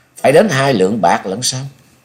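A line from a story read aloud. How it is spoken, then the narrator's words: Smiling, feigned unawareness. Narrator (Vietnamese): Nhậm Sơn Bạch giả như không nhận ra ý mai mỉa trong lời nói của đối phương, chàng mỉm cười rồi nói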